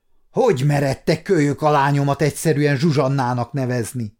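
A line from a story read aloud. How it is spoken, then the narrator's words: Angry growl. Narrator (Hungarian): mordult rá haragosan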